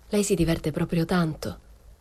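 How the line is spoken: Cold question. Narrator (Italian): le chiesi freddamente

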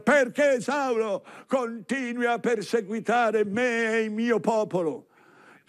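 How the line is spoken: Shouting from above. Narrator (Italian): Cristo di sopra grida

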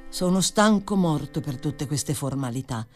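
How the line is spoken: Plain. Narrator (Italian): disse

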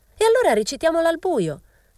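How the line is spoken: Girl's shriek. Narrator (Italian): strillò una ragazza

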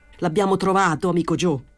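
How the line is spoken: Shouted. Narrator (Italian): gridò

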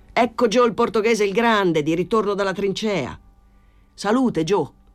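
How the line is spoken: Friends shouting together. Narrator (Italian): gridarono gli amici

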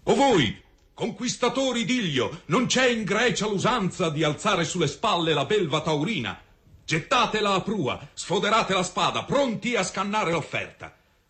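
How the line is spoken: Husband shouting. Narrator (Italian): grida lo sposo

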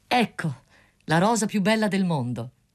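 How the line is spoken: Student's exclamation. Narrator (Italian): esclamò lo studente

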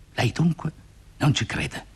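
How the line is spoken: Low, through gritted teeth. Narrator (Italian): digrignò i denti gialli e disse sottovoce

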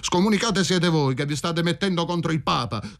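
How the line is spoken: Shout. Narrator (Italian): gridò Michele

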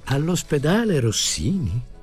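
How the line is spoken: Dreamy voice asking. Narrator (Italian): domandò il cavaliere con voce trasognata

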